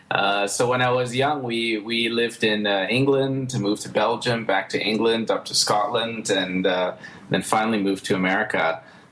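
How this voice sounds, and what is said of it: Mostly American accent. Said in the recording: “I have more of an American accent these days”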